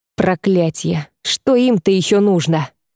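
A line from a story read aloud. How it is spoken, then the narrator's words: Growling. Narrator (Russian): прорычал Альвиир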